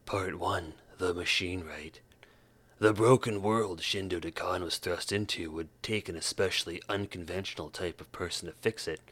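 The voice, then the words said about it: Gravelly reading voice. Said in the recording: “in my gravelly voice.”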